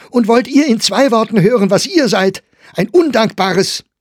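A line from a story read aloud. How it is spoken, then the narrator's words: Calling out. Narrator (German): rief Meyer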